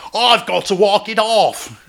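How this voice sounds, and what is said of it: Shouted, weak put-on Australian accent. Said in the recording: “I forgot to make my vowels really big, and you can only do Australian while you're yelling. ... I can't even do it then.”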